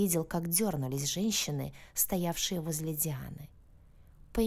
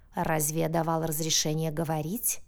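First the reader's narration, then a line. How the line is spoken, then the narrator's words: Angry growl. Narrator (Russian): Зарычал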